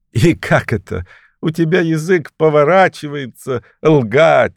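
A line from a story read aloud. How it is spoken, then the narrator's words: Laughing. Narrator (Russian): засмеялся Петер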